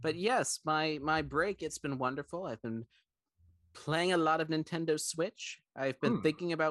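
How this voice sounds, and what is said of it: Usual voice. Nothing is said of it.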